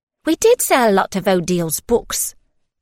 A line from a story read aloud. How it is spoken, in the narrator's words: Mabel said brightly